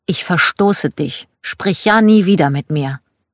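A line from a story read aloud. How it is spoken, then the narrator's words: Angry child. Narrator (German): Schon als Kind war ich sehr wütend, zum Beispiel auf meine Tante, und ich erinnere mich, wie ich zu ihr sagte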